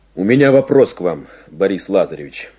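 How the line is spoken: Plain. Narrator (Russian): сказал он

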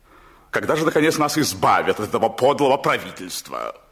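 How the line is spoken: Loud declaration. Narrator (Russian): он громко заявлял жене

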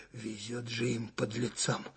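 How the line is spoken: Shivery voice. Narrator (Russian): зябким голосом проговорил штабной майор

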